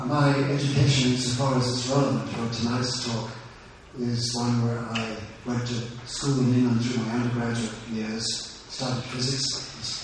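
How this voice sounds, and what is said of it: East African accent, soft voice. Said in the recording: “I'm actually originally from East Africa, so I have a funny accent... my voice isn't very strong”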